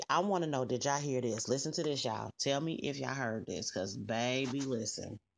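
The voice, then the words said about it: Gossipy, messy put-on voice. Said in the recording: “put on my little messy voice”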